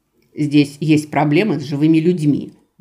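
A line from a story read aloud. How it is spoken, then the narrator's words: Redhead woman muttering. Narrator (Russian): буркнула рыжая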